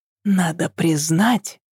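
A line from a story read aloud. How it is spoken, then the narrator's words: Whisper in ear. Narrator (Russian): шепнула она на ухо Еве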